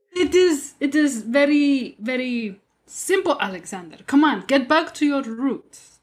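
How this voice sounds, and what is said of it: Put-on Russian accent. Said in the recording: “is really proud of this accent. ... She's so good. ... already mastered it. You go workshop your Russian accent”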